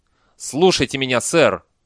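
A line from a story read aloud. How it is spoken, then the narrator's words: Barking shout. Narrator (Russian): рявкнул Бейли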